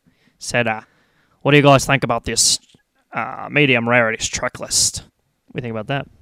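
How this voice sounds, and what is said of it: Australian accent impression. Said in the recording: “That was a great impression... I'm parodying... the Australian folks”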